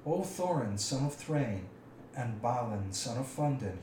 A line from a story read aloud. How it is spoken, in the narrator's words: he croaked